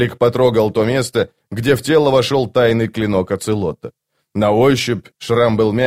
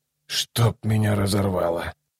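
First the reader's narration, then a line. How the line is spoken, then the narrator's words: Muttering. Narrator (Russian): пробормотал Ном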